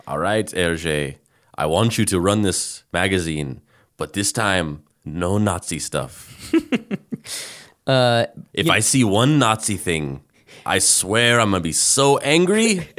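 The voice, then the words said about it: Unidentifiable put-on accent. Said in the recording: “I don't know what accent you're doing”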